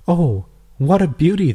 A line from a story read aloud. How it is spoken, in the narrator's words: exclaimed